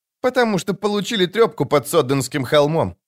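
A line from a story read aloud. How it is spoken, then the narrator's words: Muttered. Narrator (Russian): буркнула Цири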